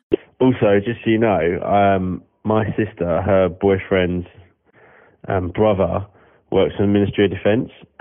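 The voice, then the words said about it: English accent. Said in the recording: “this beautiful little English accent”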